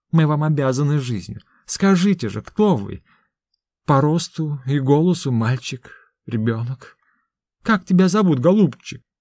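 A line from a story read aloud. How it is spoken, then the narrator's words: Gentle, affectionate conclusion. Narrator (Russian): ласково заключил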